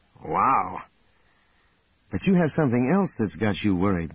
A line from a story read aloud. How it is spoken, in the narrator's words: Luke said